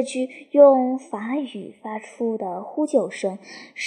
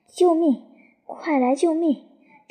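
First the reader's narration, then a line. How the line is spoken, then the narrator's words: Shouting for help. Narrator (Chinese): 他叫喊着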